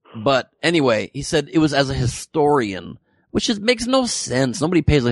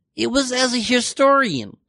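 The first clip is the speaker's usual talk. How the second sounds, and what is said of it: Imitates another person's voice, badly. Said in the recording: “that's a really bad impression,”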